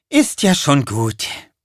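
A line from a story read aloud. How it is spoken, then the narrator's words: Sighed. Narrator (German): seufzte sie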